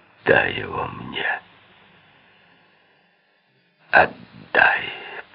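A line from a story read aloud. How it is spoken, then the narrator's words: Hoarse whisper. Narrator (Russian): прошептал хрипло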